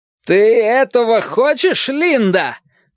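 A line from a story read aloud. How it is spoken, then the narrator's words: Man shouting. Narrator (Russian): прокричал мужчина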